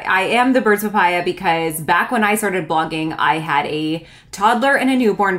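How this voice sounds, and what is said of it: Canadian accent. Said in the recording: “I always think I don't have a Canadian accent, but I really do.”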